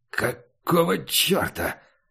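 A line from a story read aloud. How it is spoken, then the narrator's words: Hoarse. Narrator (Russian): сказал дьявол хрипло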